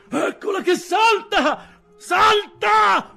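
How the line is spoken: Shout. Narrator (Italian): fu il grido

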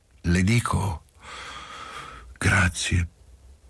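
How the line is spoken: Moved voice. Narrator (Italian): proseguì Quadri con voce commossa

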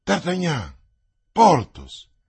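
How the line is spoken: Astonished exclamation. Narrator (Italian): Athos stupefatto esclamando

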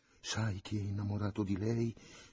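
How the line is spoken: Mother-in-law's rambling, dreamy whisper. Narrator (Italian): sussurrò la suocera, come il sogno di un piacere che la facesse straparlare

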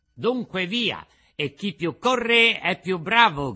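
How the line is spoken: Shout. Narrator (Italian): gridò Pinocchio

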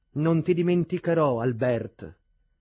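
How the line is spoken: Passionate voiceless cry. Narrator (Italian): così rispose o gridò appassionatamente e tuttavia senza più voce il pallido Neville

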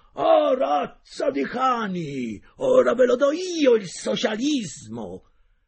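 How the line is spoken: Terrible booming shout. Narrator (Italian): una voce terribile, quella di mio padre, rimbombò nel negozio gridando

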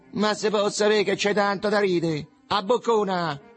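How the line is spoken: Young man shouting. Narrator (Italian): gridò un giovanotto

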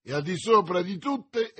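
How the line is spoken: Enthusiastic exclamation. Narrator (Italian): esclamò D'Artagnan, quasi trasportato dall'entusiasmo

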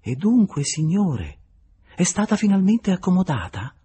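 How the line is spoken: Very sweet asking tone. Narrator (Italian): chiedendogli in tono dolcissimo

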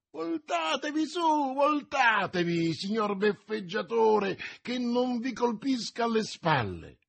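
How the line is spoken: Shrieking. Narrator (Italian): strillando

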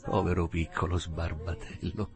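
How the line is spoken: Murmured. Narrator (Italian): mormorò

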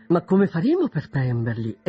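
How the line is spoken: Exclamation. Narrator (Italian): esclamò Mrs

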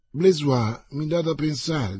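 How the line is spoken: Plain. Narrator (Italian): disse Athos

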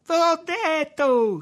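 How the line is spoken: Shrieking. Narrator (Italian): strillava Tommaso

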